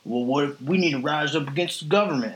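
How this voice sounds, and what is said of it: Mock Southern accent. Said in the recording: “my go to accent to make fun of somebody ... that's how you sound from the South”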